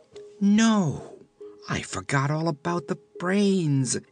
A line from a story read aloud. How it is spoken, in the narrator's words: exclaimed the woman